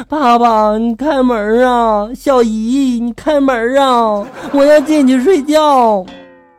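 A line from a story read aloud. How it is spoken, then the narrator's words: Child crying and wailing. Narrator (Chinese): 小孩就一直哭，一直嚎，还说着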